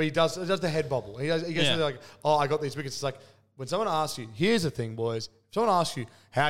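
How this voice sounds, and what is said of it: Usual voice. Nothing is said of it.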